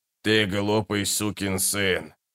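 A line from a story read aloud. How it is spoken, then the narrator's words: Through clenched teeth. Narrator (Russian): процедил паштор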